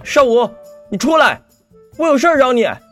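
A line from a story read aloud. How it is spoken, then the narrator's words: Loud. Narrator (Chinese): 楚留心 大声道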